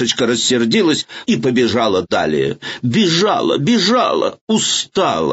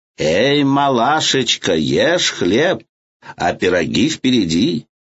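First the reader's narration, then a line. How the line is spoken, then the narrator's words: Plain. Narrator (Russian): сказала ей печь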